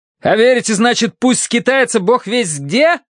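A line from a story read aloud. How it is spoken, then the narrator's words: Yelling. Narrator (Russian): заорал я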